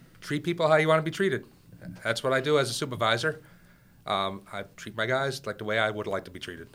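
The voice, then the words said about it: Long Island and Massachusetts accent. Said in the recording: “combination Long Island, Massachusetts accent”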